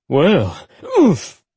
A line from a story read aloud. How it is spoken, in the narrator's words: he gasped when she placed her hands on his chest and pushed herself upright